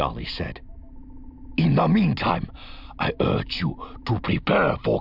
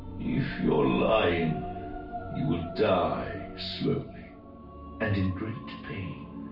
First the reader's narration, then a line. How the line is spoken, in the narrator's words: the other said, his voice going cold